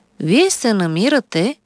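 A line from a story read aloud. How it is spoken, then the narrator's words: Calm doctor speaking. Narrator (Bulgarian): спокойно заговори лекар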